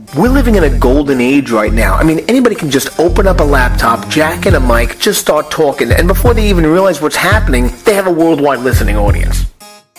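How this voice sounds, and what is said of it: Fast-talking New York accent. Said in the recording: “I talk fast, I have a New York accent”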